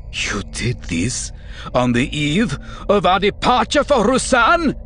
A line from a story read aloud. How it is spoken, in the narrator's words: He asked, his voice rising shrilly